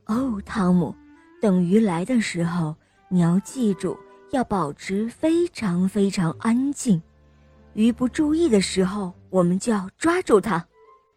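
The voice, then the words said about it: Soft whispering voice. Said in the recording (Chinese): “妈妈小声地教着汤姆”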